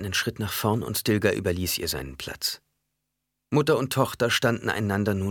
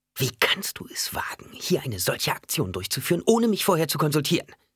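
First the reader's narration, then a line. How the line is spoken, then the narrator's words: Angry hiss. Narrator (German): fauchte sie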